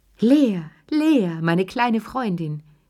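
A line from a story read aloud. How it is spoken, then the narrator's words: Old woman calling. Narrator (German): rief die alte Lilly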